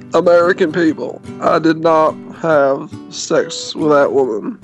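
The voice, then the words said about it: Imitates another person's voice. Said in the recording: “do a Bill Clinton impression”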